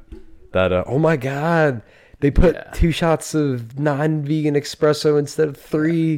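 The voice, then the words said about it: Valley Girl L.A. accent. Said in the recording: “L.A. accent ... Oh, the Valley Girl.”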